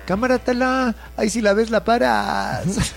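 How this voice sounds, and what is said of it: Put-on Mexico City chilango accent. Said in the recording (Spanish): “Es que todo es más divertido en acento chilango.”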